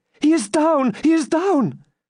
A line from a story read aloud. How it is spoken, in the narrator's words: She then uttered a loud shriek and exclaimed